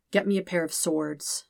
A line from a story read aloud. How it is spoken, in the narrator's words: Zuko says quietly